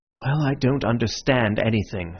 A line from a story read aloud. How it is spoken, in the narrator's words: said Syme, sighing